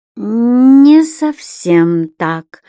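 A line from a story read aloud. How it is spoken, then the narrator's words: Slow drawn-out syllables. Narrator (Russian): Муратов произнес, медленно растягивая слоги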